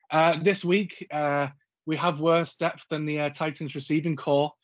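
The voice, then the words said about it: Northern English accent. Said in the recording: “not a ... southern accent ... It's actually ... from the north ... the quality of my voice”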